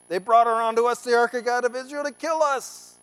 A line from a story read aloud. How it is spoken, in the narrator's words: The people of Ekron cried out